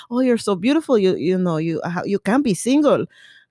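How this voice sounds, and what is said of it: Poor imitation of Latino accent. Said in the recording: “was a Latino guy ... my accent's terrible, forgive me.”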